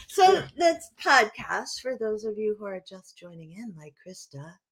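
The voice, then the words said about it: Public radio announcer voice. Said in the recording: “That's my NPR voice.”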